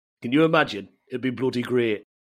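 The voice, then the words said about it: Put-on Yorkshire accent. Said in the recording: “You would have been great with a Yorkshire accent. ... I don't know what that was.”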